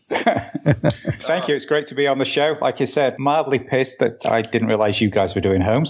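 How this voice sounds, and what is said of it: British accent. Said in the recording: “he's got a British accent ... he has a more British accent than James Bond did in this movie”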